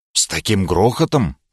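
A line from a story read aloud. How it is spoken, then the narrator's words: Muttering. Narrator (Russian): пробормотал я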